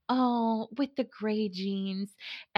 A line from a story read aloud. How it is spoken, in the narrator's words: she said really wistfully